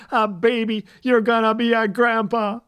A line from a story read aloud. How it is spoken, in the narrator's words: He laughed